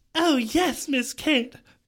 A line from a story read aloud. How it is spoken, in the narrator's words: Calendar gasped